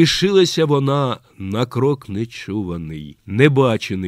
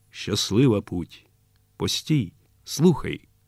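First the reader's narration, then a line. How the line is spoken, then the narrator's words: Quiet, sorrowful. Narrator (Ukrainian): сказала Олеся тихо, дивлячись на танкіста глибокими скорбними очима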